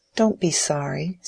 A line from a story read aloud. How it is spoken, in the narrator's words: said Dorothea, in her clear, tender tones